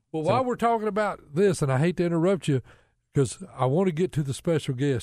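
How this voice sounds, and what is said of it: Southern American drawl. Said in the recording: “Southern drawl ... I was raised in the South.”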